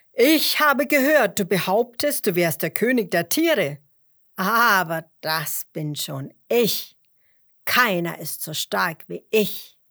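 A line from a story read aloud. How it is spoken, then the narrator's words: Lion calling loudly. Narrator (German): rief der Löwe laut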